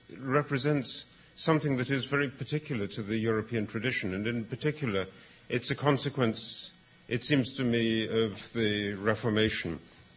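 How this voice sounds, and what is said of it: English accent. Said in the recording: “you can tell that I'm speaking with an English accent”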